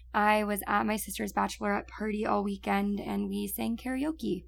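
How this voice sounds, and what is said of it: Raspy, partly lost voice. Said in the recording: “forgive me for my voice that's a little bit raspy and a little gone ... I'm sure you can tell by my voice”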